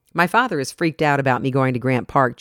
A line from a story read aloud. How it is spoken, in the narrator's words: Julia said